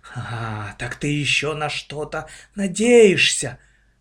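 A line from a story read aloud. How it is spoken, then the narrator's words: Exclaimed. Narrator (Russian): воскликнула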